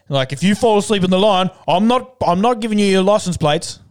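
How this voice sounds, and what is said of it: Put-on vaguely European accent. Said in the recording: “That was a really good, somewhat European accent.”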